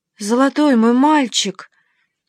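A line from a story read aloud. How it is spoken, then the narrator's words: Exclamation. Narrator (Russian): воскликнула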